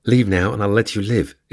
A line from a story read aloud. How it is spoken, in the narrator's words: said in a synthesized voice